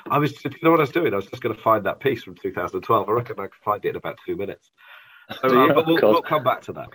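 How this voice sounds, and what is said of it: Congested voice from a cold. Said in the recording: “you can probably hear from my voice, a very bad cold”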